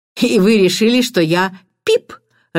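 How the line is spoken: Laughing. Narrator (Russian): рассмеялся Эдмунд

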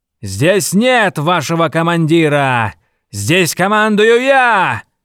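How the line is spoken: Yelling. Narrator (Russian): заорал Монев

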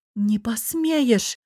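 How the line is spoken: Gasping, faltering babble. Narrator (Russian): охнув пролепетала

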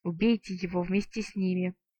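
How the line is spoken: Hissing whisper. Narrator (Russian): свистящим шепотом посоветовал неприятный тип в мантии

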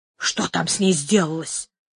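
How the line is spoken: Whisper. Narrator (Russian): сказал шепотом

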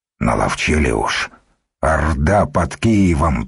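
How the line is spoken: Grumbling. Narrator (Russian): проворчал Духарев

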